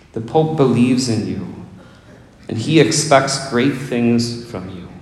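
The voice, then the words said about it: Imitates the Pope's thick Polish accent. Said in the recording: “in that thick Polish accent of his”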